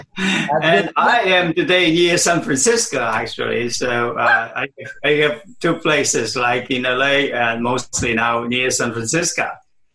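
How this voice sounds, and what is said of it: Foreign accent. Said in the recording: “I have, of course, my accent with me, right?”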